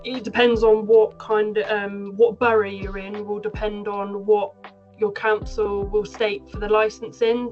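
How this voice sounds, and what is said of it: Somerset West Country accent. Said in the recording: “you can probably tell from my accent, I'm from Somerset”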